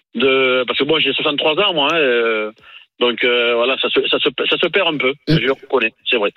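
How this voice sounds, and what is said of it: Southern French accent. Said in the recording (French): “nous, on a l'accent du Sud, on n'a pas l'accent de Marseille ... Un peu quand même.”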